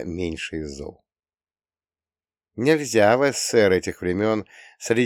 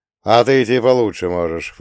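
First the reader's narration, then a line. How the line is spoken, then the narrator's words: Scoffing snort. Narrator (Russian): фыркнул он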